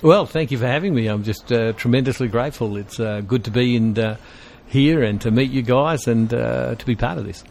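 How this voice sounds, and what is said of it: Australian accent. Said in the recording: “you're from Australia... I can tell from the accent.”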